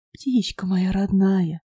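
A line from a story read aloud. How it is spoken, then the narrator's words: Tender, smiling. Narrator (Russian): нежно улыбнулся Сергей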